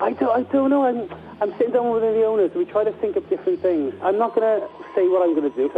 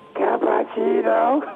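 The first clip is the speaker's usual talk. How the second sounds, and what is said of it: Weak Dalek voice sounding like Yoda. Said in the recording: “do you do a Dalek voice yourself? ... I try, but it comes up more like Yoda ... It is a bit more like Yoda, isn't it? ... It's not the best impression”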